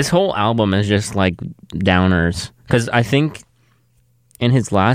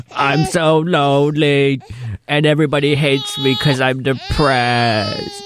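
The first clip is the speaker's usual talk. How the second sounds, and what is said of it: Imitates another person's voice. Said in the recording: “That's my Morrissey impression.”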